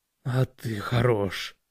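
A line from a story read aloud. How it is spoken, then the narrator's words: Hoarse wheeze. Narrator (Russian): прохрипел он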